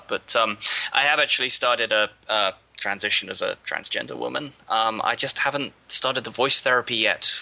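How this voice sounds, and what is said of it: Gruff, masculine British-accented voice. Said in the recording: “here I am with my samey, gruff, masculine British accent”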